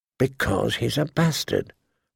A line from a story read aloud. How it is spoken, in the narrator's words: Bran finally had to whisper to him